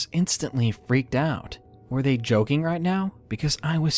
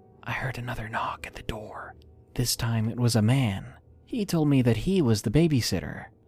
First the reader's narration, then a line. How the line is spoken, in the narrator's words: She said to me in a whisper